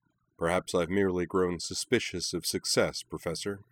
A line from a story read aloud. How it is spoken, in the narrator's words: said Toga dryly